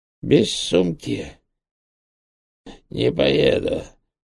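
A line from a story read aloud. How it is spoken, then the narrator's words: Hoarse, slurred, fake accent. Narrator (Russian): просипел биохимик, с трудом ворочая языком, что отлично заменяло китайский акцент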